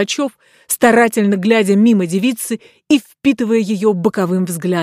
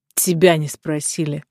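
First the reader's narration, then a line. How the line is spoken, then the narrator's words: Count grumbling. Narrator (Russian): проворчал граф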